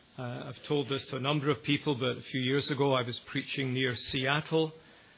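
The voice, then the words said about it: Scottish Glasgow accent. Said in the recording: “In case you're wondering about the accent, it's called Educated Glasgow... Not from China, but from Bonnie Scotland.”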